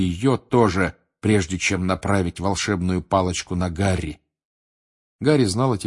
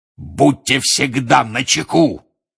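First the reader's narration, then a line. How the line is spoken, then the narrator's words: Roaring. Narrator (Russian): взревел он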